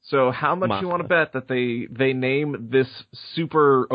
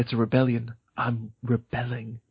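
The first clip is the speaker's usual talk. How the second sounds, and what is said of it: Vague English accent. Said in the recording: “In that vague English accent that some people in Star Wars have for some reason.”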